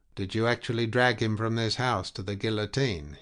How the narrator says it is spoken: he asked in his unemotional voice

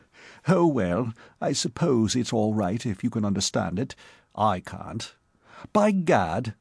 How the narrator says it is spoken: he broke off with a chuckle

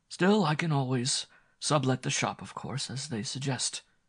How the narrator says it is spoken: he concluded with a sigh

